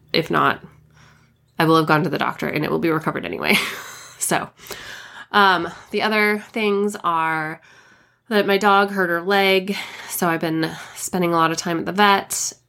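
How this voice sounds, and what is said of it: Voice not yet recovered. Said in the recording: “my voice has got to be recovered ... my voice better be recovered enough to record that.”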